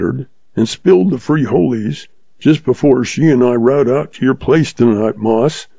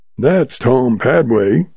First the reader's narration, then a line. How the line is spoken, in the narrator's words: he muttered